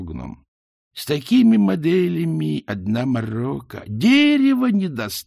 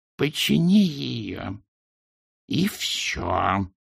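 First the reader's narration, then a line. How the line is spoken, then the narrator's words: Hissed. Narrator (Russian): прошипела она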